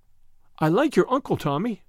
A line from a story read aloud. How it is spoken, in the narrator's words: said Tuppence, hastily creating a diversion